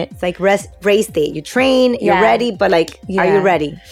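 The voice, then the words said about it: Heavy Spanish accent in English. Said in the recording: “I feel like I'm speaking like broken English the whole time ... I have a heavy accent ... thinking in Spanish”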